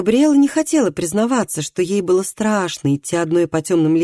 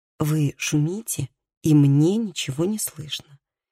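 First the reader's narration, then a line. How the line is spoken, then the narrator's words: Reproachful remark. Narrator (Russian): сделала замечание Габриэла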